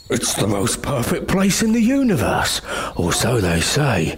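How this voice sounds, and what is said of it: Ancient man with strange accent. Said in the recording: “said the ancient man in a strange accent”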